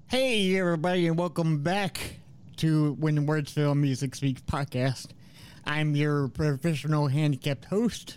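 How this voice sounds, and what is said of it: Voice sounds like a Muppet character. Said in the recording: “my voice sounds like Scooter from the Muppets”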